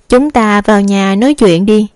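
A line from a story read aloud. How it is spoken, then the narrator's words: Smiling. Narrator (Vietnamese): Đường Thư Nghi mỉm cười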